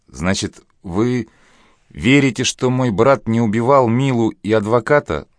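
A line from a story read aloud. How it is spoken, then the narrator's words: Sob. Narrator (Russian): всхлипнула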